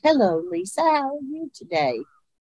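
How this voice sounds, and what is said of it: Lilting sing-song Appalachian voice. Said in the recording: “It wasn't that rough Appalachian. It wasn't pretentious... their voices had a lilt... just beautiful up and down... that sing song”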